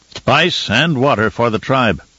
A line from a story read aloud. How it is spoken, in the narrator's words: Stilgar said